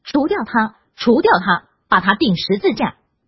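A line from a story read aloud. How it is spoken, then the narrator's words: Crowd shouting. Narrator (Chinese): 他们就喊叫起来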